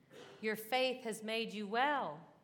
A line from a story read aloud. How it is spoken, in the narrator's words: Jesus says